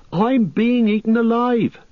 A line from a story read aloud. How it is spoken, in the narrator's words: cried Pippin